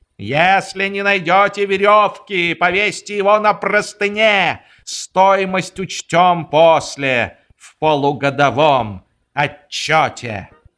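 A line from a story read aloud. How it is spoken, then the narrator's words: Shouting. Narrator (Russian): он все кричал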